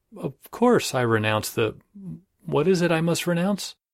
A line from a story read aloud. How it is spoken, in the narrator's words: recovering himself said kindly